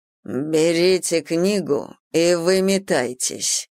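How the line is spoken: Curt, through teeth. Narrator (Russian): процедил он на прощание

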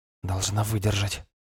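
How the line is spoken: Quiet whisper. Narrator (Russian): тихо шепнула Сигрид

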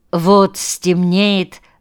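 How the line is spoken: Plain. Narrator (Russian): ответил Авдей

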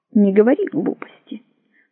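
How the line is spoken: Muttered. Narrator (Russian): пробормотал он

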